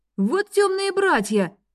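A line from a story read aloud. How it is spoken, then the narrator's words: Exclaimed. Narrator (Russian): воскликнул он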